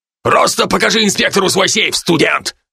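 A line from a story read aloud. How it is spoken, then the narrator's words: Barking. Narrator (Russian): рявкнул на меня Галей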